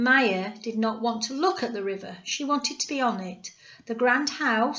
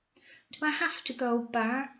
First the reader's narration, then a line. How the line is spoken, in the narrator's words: asked quietly